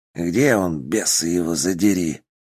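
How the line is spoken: Hoarse rasp. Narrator (Russian): прохрипел Ойла

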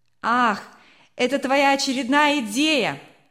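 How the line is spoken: Shouted out. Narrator (Russian): выкрикнул кто-то

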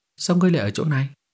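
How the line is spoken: Sighing. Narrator (Vietnamese): Lâm Bắc Thần thở dài một hơi, nói

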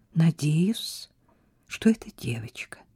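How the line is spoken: Quiet. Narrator (Russian): тихо проговорила она

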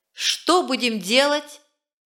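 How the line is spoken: Impetuous urgent shout. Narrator (Russian): закричал быстрый и порывистый стрибок, бог ветра, готовый сорваться и лететь за похитителем

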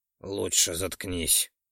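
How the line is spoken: Gloomy mutter. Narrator (Russian): Невесело пробормотал Ролдан

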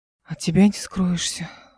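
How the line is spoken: Disappointed exhale. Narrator (Russian): разочарованно выдохнул

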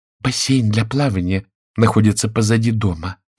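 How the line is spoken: Whisper. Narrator (Russian): прошептала миссис Торнтон

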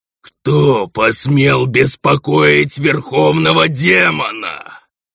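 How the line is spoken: Booming gloating roar. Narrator (Russian): проревел Булфер, наслаждаясь раскатами своего голоса

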